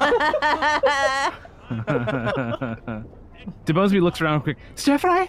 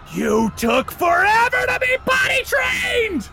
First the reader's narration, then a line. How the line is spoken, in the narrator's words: The trees begin screaming, as they shout